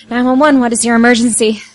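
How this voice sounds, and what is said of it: Extremely tired-sounding voice. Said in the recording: “operator sounds extremely tired.”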